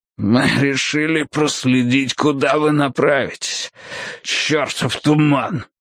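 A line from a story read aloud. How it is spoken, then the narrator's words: Hoarse wheeze. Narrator (Russian): прохрипел Фрост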